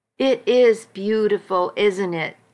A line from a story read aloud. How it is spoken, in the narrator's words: I said